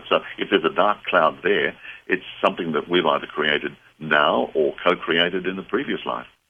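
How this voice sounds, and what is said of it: Australian accent. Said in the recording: “I just love that Australian accent”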